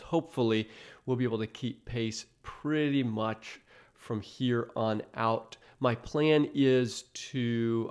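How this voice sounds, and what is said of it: Voice sounds a little off. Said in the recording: “my voice is a little off. That's because our family battled COVID last week”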